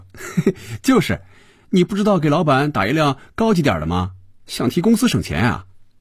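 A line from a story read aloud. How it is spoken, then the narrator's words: Laughing. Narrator (Chinese): 菲比笑着对肖斌说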